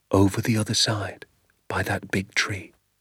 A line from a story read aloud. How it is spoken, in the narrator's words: father whispered